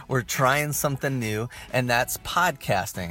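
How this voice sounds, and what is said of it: Mock radio announcer voice. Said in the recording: “my best radio voice, which I realize is not very good”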